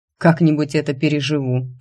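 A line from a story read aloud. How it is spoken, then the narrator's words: Snort. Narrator (Russian): фыркнул Рик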